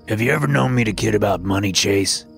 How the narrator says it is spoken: Grandpa said, his voice a stern growl

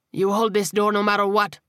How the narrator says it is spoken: he snarled

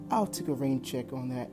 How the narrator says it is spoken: Drake said with a laugh

